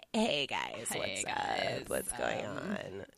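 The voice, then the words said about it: Exaggerated vocal fry valley-girl voice. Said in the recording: “Kardashian-level vocal fry ... I'm so tempted to do a Kardashian impression”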